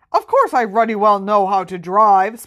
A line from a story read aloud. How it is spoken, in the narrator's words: spluttered Uncle Vernon